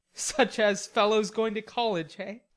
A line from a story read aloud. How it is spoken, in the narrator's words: cut in Laurie with a suggestive laugh